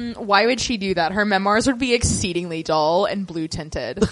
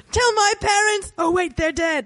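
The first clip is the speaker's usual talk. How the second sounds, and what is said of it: Imitates another person's voice. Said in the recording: “It's my impression of Gilly. ... It's not bad.”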